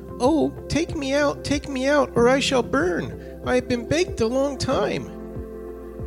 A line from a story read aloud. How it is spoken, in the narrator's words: the bread again cried